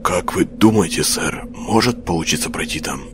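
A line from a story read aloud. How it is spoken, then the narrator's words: Whispered. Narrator (Russian): Прошептал Кус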